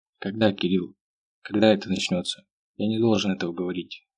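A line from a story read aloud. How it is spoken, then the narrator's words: Quiet reply. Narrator (Russian): тихо ответил он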